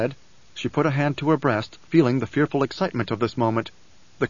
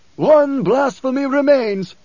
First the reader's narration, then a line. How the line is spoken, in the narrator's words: screamed